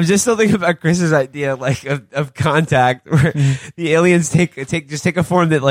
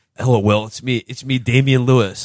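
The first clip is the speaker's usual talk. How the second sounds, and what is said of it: Put-on American accent. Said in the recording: “I'm talking in an American accent”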